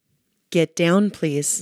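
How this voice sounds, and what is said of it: Stern parental mom voice. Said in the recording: “your mom voice ... That was your mom voice.”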